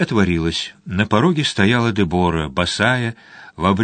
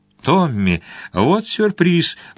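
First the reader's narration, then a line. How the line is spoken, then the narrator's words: Exclaiming. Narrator (Russian): воскликнула она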